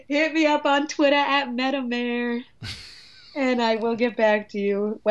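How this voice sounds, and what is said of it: New York accent. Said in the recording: “my New York accent really comes out”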